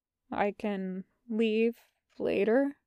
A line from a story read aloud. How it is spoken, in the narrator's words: He asks quietly